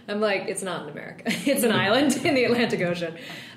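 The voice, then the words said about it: American accent. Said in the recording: “I have this American accent”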